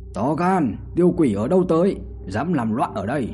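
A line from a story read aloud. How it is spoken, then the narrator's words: Booming bell-like shout. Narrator (Vietnamese): Tiếng quát này như chuông đồng chấn động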